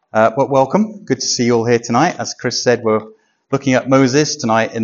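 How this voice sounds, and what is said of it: Voice affected by a cold. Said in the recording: “I've got a bit of a cold at the moment, so I've got some water just in case my throat goes dry”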